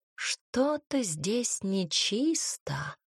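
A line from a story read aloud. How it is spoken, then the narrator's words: Purring. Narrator (Russian): мурлыкнула она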